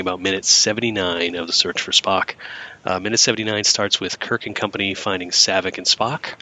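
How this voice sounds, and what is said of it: Hoarse voice from a cold. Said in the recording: “I'm still getting over a cold, so my voice is a little McCoy-like right now.”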